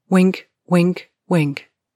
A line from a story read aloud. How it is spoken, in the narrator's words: said Lena